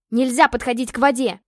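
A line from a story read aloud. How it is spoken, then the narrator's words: Angry unrestrained bark. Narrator (Russian): рявкнула на него Ева, уже не сдерживаясь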